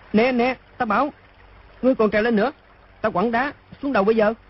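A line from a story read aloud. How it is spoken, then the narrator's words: Frightened loud shout. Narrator (Vietnamese): Đoàn Dự sợ quá, quát to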